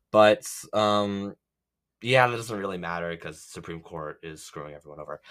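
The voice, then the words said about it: Congested voice from a cold. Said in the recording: “I am dealing with a pretty bad cold, so that's why my voice sounds slightly off.”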